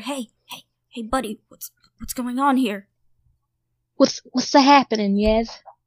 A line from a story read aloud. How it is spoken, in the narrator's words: They just seem to be shouting out for help